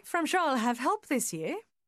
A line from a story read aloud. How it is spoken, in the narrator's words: she added, her voice light and gay